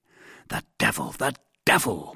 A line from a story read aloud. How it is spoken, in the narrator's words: murmured D'Artagnan